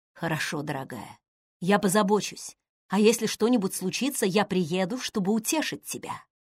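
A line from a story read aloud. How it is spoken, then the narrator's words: Whispered. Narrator (Russian): шепнул Лори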